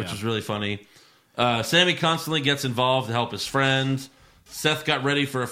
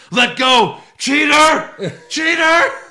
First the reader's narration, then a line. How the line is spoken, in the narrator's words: yells